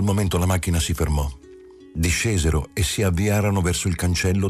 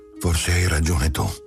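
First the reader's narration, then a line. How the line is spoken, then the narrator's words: Resigned mother. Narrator (Italian): La madre disse in tono rassegnato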